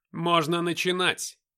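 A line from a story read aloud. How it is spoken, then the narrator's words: Loud. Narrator (Russian): громко сказал Люцифер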